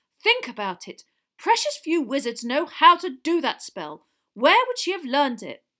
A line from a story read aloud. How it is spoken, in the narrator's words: Weasley loudly